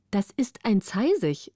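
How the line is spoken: Plain. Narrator (German): sagte der Prinz

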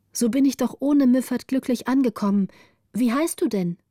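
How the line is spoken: Called out. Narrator (German): rief Gritta

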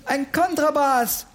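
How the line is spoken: Called out. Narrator (German): rief Oliver

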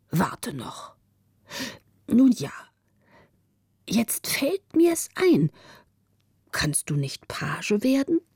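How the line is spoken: Sad old man. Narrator (German): sagte der alte Müffert ... traurig

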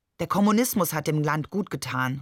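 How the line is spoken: Plain, after a pause. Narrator (German): sagte er schließlich

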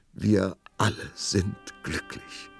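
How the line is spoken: Princess sobbing. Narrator (German): schluchzte die Prinzessin

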